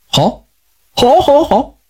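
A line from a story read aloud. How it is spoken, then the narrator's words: Smiling, repeating. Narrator (Chinese): 这个老头 一笑，嘴里连说道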